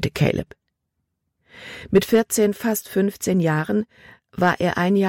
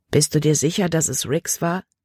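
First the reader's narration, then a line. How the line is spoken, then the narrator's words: Plain question. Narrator (German): fragte sie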